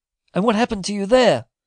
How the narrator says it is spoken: he cried, with a look of anxiety

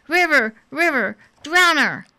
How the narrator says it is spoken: behind her the Org cried

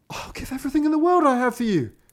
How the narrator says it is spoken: cried the king

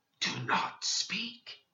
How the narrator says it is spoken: In a hoarse whisper, said

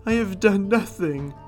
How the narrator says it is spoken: he cried

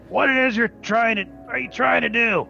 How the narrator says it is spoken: basically really pissed off, yell

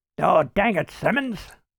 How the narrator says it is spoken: grumbled Mike

